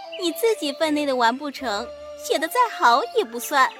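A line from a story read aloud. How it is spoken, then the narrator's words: Group laughing. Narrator (Chinese): 众人笑道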